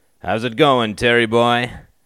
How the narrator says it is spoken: boomed Dave

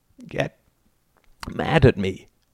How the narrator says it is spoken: croaked Justin

